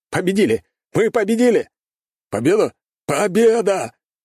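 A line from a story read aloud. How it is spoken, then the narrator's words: Excited group shouting. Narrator (Russian): Закричали операторы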